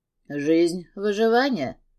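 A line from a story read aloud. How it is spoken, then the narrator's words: Scoffing snort. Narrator (Russian): хмыкнул Габриэль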